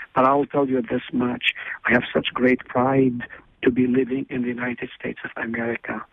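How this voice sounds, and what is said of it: Foreign accent. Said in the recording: “I'm a foreigner, and you can tell that by my accent.”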